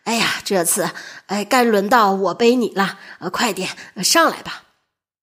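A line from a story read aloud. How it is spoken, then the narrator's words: Panting, out of breath. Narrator (Chinese): 宋定伯喘着气说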